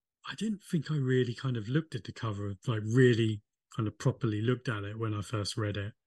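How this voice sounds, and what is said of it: Liverpool (Scouse) accent. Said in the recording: “I'm a Liverpool fan ... you got the accent for it”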